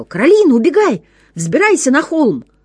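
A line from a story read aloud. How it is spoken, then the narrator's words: Sudden shout. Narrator (Russian): Вдруг папа закричал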